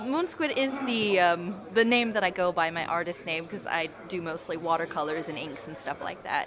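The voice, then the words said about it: Slight American accent. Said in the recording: “a slight American accent there ... Just a teeny one”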